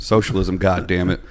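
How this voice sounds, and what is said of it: Southern accent. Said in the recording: “Southern accent, not bad”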